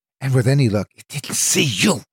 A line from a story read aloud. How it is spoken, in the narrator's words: she hissed